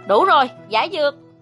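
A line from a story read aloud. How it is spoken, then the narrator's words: Loud shout. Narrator (Vietnamese): hét lớn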